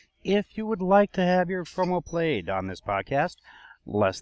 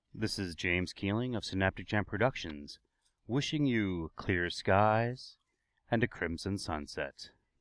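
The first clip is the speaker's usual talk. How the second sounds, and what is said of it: Deliberately deeper, formal announcer voice. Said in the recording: “put on my big boy voice.”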